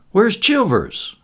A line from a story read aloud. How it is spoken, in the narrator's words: demanded sharply